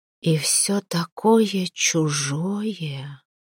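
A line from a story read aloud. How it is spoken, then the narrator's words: Quiet witch reply. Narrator (Russian): негромко отозвалась ведьма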